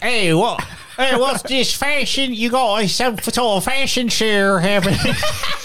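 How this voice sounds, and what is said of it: Put-on Australian accent. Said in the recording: “What is that accent? ... It's Australian. ... It's clearly Australian.”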